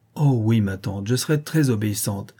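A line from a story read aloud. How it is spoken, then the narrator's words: Joyful, tender exclamation. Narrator (French): s'écria Vassilissa, dont le cœur débordait de joie et de tendresse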